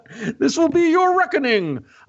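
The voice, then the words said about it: Attempted Bane villain voice. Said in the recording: “I want to do a Bane voice, but I can't get it. I can't do it.”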